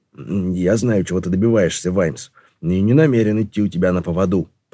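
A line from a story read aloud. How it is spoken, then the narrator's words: Muttered. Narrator (Russian): пробормотал он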